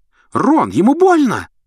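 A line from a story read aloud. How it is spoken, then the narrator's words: Shriek. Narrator (Russian): взвизгнула Гермиона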